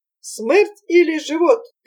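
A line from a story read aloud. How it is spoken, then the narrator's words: Shouting. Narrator (Russian): кричал черкес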